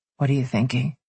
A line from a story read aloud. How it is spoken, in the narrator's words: He whispered